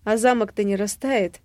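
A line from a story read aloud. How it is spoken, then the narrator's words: Nervous chuckle, questioning. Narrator (Russian): Нервно хмыкнув, уточняю я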